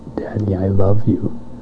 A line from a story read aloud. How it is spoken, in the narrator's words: he whispered in my ear